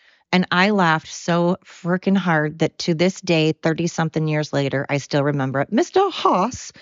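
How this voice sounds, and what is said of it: Usual voice. Nothing is said of it.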